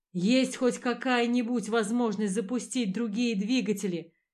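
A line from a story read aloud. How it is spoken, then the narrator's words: Breathless shout. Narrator (Russian): крикнул я, хватая ртом воздух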